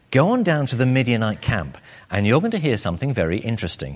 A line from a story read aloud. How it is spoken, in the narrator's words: says